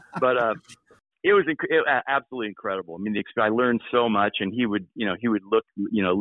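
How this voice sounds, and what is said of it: Usual voice. Nothing is said of it.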